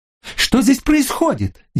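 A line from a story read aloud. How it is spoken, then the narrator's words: Hysterical scream. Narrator (Russian): истерично закричала она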